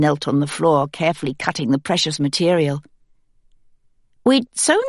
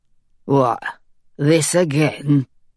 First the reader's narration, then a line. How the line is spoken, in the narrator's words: he said, his voice thick and slurred